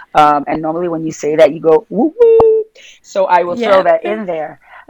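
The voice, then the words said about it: Brooklyn New York accent. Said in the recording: “my New York accent, Brooklyn accent”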